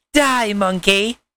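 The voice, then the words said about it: Weak attempt at cartoon villain voice. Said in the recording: “that's not my Frieza voice... I can't do a good Frieza voice”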